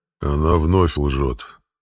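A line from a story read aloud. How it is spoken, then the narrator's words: Sleepy flat statement. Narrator (Russian): сонным голосом констатировал Дракот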